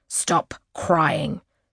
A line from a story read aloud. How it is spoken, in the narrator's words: she says sharply